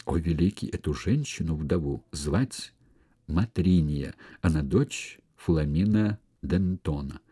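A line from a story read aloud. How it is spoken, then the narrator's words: Quiet, into ear. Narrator (Russian): тихо сказал на ухо Соле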